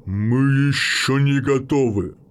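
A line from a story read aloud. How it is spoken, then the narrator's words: Restrained force through teeth. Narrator (Russian): процедил Хорус, и сила, что сдерживалась в его словах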